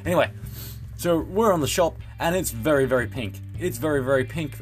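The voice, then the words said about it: Australian accent. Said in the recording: “my terrible Australian accent”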